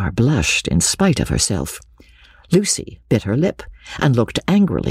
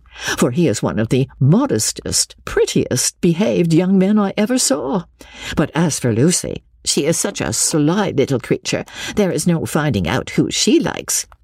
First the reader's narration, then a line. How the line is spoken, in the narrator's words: Jennings, laughing heartily